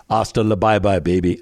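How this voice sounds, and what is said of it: Weak imitation of another person's voice. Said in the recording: “how did Arnold do that? ... I don't do a good Arnold, but that was my best impersonation.”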